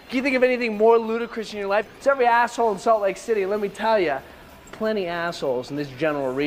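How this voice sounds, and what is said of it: Usual voice. Nothing is said of it.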